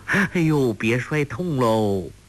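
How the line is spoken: Laughing. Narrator (Chinese): 欧阳克……笑道

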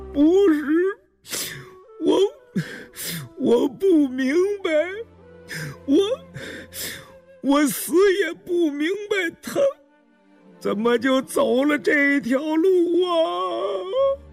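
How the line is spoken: Hoarse, sobbing, broken. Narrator (Chinese): 文七十四低垂着头，声音嘶哑哽咽，抽泣着摇头，断断续续地说

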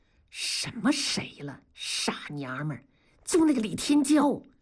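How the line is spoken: Lowered voice. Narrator (Chinese): 大庄声音放低了说

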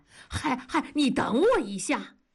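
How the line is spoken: Calling from behind. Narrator (Chinese): 大庄在后面喊

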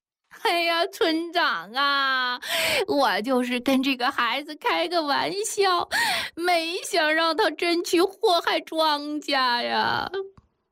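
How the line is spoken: Sobbing while speaking. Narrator (Chinese): 孙三媳妇儿一边哭着，一边说

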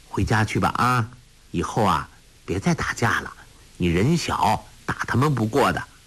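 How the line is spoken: Gentle, soft. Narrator (Chinese): 韩小莹柔声说

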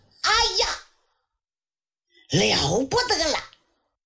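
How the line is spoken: Loud shout. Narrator (Chinese): 罗子都大喊一声

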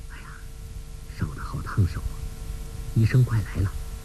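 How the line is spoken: Soft voice. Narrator (Chinese): 那人轻声说

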